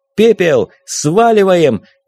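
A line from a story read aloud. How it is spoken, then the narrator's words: Shout. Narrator (Russian): крикнул Вилен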